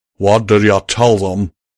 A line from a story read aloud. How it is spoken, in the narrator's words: Calamity said sternly